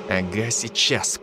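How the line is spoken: Through gritted teeth. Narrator (Russian): процедил Дарт

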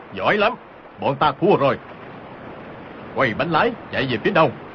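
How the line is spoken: Loud raised shout. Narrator (Vietnamese): Âu Dương Phong cao giọng quát lớn

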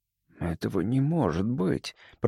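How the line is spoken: Mutter. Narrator (Russian): пробормотал я

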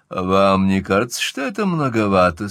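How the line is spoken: Gloomy. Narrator (Russian): сказал он мрачно

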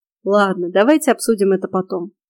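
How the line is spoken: Conciliatory deep voice. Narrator (Russian): примиряюще пробасил Фрей

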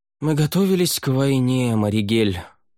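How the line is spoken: Weary reply. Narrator (Russian): устало ответил он

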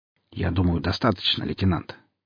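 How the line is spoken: Quietly said. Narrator (Russian): тихо сказал

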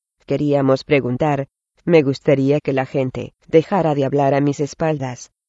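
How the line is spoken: Tearful choked voice. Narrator (Spanish): dijo Mirtle, con la voz ahogada por las lágrimas

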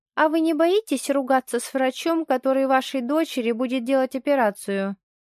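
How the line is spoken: Amused young nurse snort. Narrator (Russian): Весело хмыкает медсестричка

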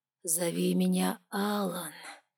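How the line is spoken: Purring like a cat. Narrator (Russian): как мурлыкающий кот проговорил князь

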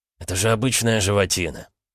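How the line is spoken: Soothing. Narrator (Russian): попытался успокоить Ксандр

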